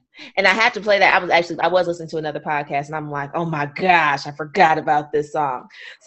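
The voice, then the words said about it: Hoarse, fading voice. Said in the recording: “losing my voice because this past weekend I wanted to be yelling a whole lot, being drunk. So my voice is kind of going out”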